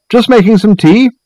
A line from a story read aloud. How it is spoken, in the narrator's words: called out